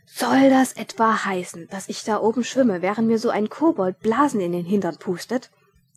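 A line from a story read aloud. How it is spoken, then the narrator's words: Thundering indignation. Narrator (German): donnerte Ridkali empört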